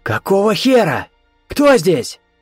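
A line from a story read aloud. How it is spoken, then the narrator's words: Hoarse croaking shout. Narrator (Russian): Крикнул, и собственный голос напомнил карканье смертельно больной вороны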